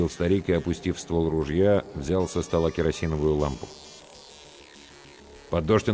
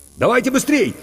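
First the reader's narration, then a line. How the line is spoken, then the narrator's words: Shouted. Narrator (Russian): крикнул Иван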